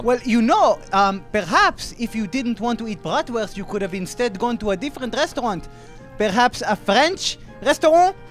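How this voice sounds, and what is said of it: Thick German accent. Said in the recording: “your thick German accent”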